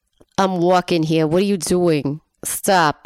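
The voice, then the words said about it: Exaggerated put-on New York accent. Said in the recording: “bad New York accents ... in a New York accent”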